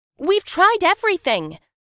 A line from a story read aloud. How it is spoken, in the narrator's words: the woman shouted